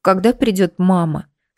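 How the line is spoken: Tearful girl asking. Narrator (Russian): сквозь слезы спрашивает одна из девочек

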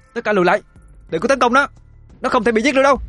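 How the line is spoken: Hurried shout. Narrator (Vietnamese): Cô vội hét lên

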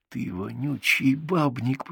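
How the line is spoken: Hiss. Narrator (Russian): прошипел

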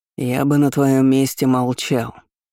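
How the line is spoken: Menacing advice. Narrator (Russian): грозно посоветовал Анатолий Михайлович

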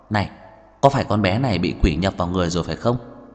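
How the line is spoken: Soft whisper. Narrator (Vietnamese): Tào Ánh Kiệt vươn tay kéo kéo một góc ống tay áo Trần Mạn Hồng khe khẽ nói

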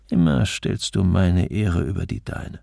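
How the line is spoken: Murmuring. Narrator (German): Er murmelte

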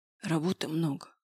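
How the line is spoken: Hoarse. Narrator (Russian): прохрипел он

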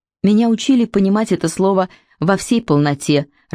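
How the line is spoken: Irritated. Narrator (Russian): раздраженно произнесла Лип

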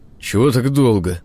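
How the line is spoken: Grumbling. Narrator (Russian): проворчал

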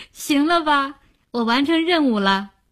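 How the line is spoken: Relieved, laughing. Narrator (Chinese): 林星先松了口气，对吴晓笑道

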